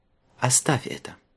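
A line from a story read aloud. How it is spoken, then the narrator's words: Calm advice. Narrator (Russian): спокойно посоветовала она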